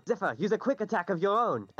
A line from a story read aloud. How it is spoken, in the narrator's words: Desmond's going to shout out